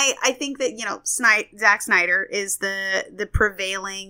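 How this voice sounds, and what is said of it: Usual voice. Nothing is said of it.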